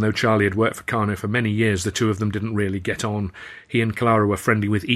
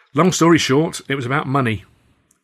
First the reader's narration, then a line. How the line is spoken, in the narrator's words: Charlie grunted